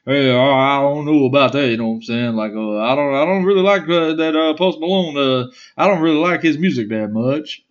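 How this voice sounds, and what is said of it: Imitates another person's country accent. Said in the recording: “he has a country accent ... he's like Boomhauer a little bit”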